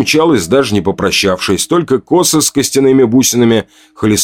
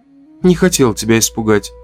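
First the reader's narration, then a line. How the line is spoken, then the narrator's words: Soft. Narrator (Russian): мягко сказала она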